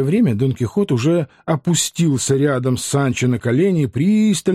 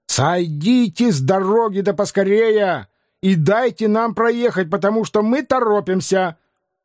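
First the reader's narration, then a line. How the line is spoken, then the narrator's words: Sharp angry shout. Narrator (Russian): крикнув резко и сердито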